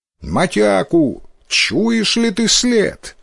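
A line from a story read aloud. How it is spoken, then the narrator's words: Loud. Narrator (Russian): Говорит Усинобо громко, чтобы отец слышал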